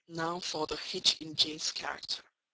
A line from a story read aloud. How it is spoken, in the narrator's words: he said at last, speaking more calmly than from his look I had expected him to speak